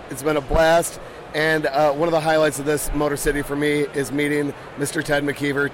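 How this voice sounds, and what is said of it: Worn-out, hoarse voice. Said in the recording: “my voice is shot”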